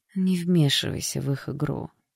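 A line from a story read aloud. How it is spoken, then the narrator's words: Tired request. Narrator (Russian): устало попросила женщина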